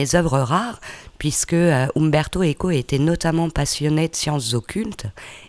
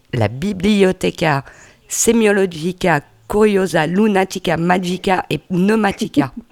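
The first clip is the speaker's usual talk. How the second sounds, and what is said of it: Put-on Italian accent. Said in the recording (French): “Avec ce, bel accent italien”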